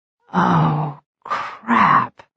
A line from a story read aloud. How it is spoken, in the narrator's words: I breathed